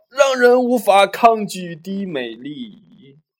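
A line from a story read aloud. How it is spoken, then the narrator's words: Roaring. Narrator (Chinese): 泰森接着吼道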